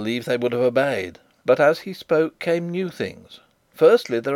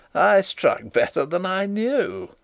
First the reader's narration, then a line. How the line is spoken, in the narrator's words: he laughed triumphantly